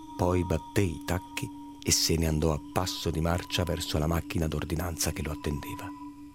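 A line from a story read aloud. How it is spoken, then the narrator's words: Cousin murmuring. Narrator (Italian): mormorò il cugino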